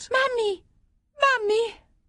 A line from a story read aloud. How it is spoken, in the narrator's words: the child cried out